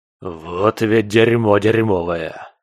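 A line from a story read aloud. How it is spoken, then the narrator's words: Distant hoarse female growl. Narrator (Russian): Донесся с места происшествия хриплый рык невидимой союзницы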